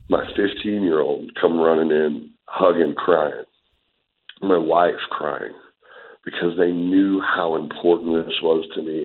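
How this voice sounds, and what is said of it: Emotional, choked-up voice. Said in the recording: “I'm getting emotional just talking about it now”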